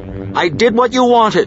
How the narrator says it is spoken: Kendra shouted at them

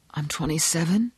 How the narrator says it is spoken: he muttered

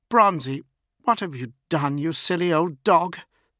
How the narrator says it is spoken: She pleaded

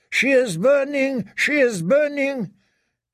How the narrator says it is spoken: Her rider called out

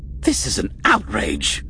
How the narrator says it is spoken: Minister Orth snapped

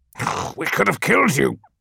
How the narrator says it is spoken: snarled Volk

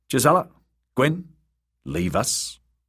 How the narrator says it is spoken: good brother said curtly

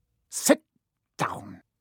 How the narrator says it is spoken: he snapped at Hermione

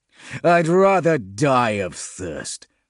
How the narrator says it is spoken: Grimm croaked

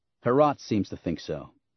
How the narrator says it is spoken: Han said

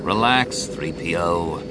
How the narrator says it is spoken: Han said, his voice so dry he sounded almost bored

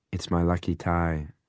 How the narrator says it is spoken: he said

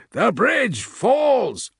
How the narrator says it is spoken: one of the prosecutors called out

